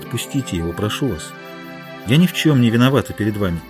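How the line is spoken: Gentle, affectionate. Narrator (Russian): ласково сказала

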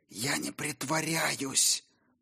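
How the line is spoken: Hoarse wheeze. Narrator (Russian): просипела она

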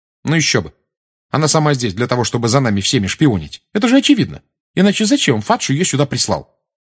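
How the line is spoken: Sharp tone. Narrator (Russian): резким тоном сказала Гермиона

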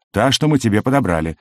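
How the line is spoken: Irritated. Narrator (Russian): раздраженно отозвался Кликли

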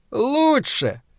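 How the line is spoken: Answering in unison. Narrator (Russian): хором ответили демоны

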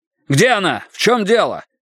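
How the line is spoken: Frantic shout into phone. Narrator (Russian): закричал Страйк в трубку, забыв обо всем на свете

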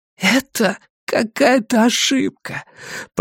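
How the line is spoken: Hoarse croak. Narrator (Russian): прохрипел Люк

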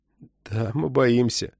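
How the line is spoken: Muttering under breath. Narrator (Russian): пробормотал себе под нос Джейкоб Симеон

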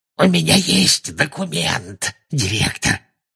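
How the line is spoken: Said hoarsely. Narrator (Russian): хрипло сказал он

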